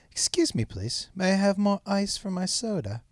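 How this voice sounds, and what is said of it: Poor put-on British accent. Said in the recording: “British accent ... It's terrible.”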